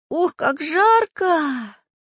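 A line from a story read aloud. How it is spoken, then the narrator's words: Exhaled. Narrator (Russian): выдохнул Чижик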